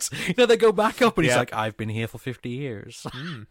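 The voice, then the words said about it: Put-on American accent impression. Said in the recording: “Pretty good impression... That's his American accent... his voice is strangely like this”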